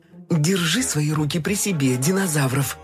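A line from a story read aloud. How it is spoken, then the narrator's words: Indignant hiss. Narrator (Russian): возмущенно прошипела она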